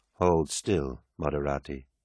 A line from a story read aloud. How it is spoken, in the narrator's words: said the adept behind him, his voice dull and lifeless